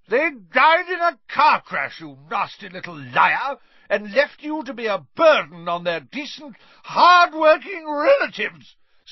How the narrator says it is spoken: screamed Aunt Marge, swelling with fury

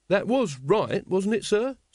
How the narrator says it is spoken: said Carrot anxiously

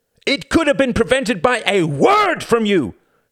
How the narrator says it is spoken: shouted Renata

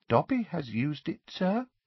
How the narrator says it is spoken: said the elf, dropping his voice and looking guilty

